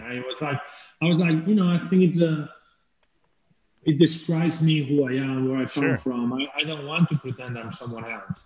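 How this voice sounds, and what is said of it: Spanish accent in English. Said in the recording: “I wanted to keep my accent ... it's like peculiar ... with a Spanish accent”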